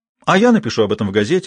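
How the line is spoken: Joyful announcement. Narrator (Russian): радостно объявила Джулия

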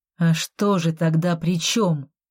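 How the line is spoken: Angry question. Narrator (Russian): зло поинтересовался инквизитор

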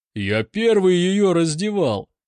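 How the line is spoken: Shouting man. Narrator (Russian): кричал усач

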